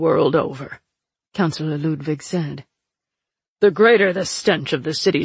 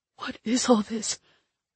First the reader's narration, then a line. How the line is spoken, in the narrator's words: Lick gasped